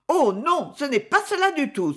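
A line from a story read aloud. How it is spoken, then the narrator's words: Exclaiming. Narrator (French): s'écria May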